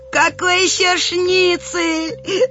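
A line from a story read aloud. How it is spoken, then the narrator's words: Group laughter. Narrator (Russian): захохотали мы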